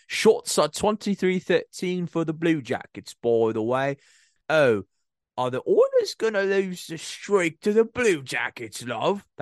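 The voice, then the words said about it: Put-on British accent. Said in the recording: “I had to give you a British accent.”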